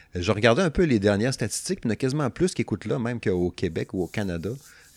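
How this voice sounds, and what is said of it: Strong Québécois French accent. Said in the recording (French): “désolé des fois pour mon accent, ça se peut que vous compreniez pas tout tout, mais si vous nous écoutez, il faut croire que c'est pas si pire que ça”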